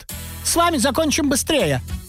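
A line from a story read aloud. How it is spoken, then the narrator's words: Cheerful reply. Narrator (Russian): отвечал король и весело подмигивал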